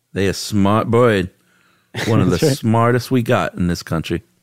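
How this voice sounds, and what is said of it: Vernon, Florida accent. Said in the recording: “That's a good Vernon, Florida accent.”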